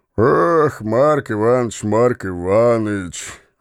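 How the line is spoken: Sigh. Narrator (Russian): вздохнул Становой

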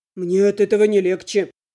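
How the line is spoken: Grumbled. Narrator (Russian): буркнул Альмер

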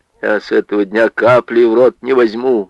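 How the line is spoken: Dull muffled voice. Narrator (Russian): глухо сказал Ваня

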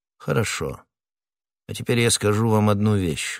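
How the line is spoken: Cold. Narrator (Russian): холодно продолжал Атос

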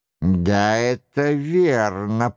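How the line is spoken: Creaky voice. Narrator (Russian): проскрипел Франсуа

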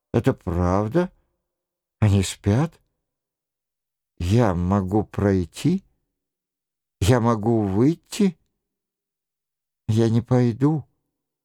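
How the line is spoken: Frightened mumble. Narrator (Russian): Она испуганно пробормотав

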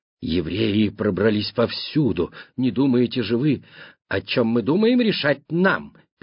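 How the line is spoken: Mumbling. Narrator (Russian): Симонини забормотал

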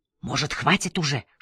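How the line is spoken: Whisper. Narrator (Russian): шепнул Саня

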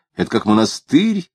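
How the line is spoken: Lying. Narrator (Russian): лгал он

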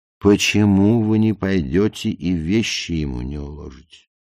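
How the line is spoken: Very gentle question. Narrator (Russian): спросила она очень мягко

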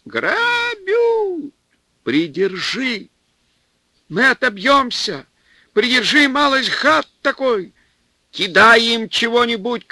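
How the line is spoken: Shout. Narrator (Russian): крикнул Наум

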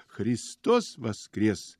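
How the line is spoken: Joyful ringing exclamation. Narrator (Russian): он вскрикивает радостно, звонко

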